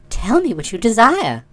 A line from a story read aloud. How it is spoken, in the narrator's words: said the sorceress in her sweet voice